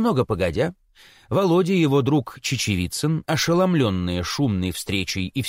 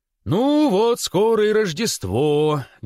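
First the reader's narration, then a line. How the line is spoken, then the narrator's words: Sing-song father. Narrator (Russian): говорил нараспев отец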